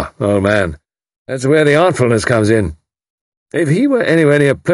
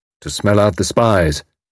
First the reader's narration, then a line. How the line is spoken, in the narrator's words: Tommy explained gravely